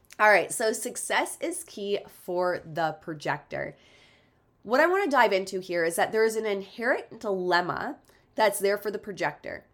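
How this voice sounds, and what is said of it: Stuffy, congested, muffled voice. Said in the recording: “I just realized how stuffy I am and I even sound weird in my own head. I'm just coming back from the flu. ... I sound so weird or if my voice is getting more muffled as we go”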